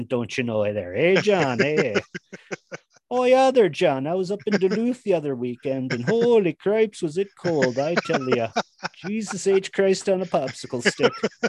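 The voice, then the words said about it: Put-on Minnesota accent. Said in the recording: “my Minnesota accent ... the Minnesota accent thing”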